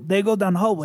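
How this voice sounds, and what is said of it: Put-on Russian accent. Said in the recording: “your Russian accent”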